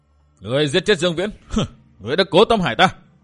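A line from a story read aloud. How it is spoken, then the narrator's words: Scream. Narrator (Vietnamese): Vừa thét xong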